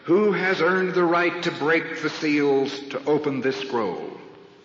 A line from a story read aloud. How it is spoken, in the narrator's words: angel shouting with a mighty voice